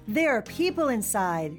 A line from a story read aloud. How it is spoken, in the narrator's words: the chief shout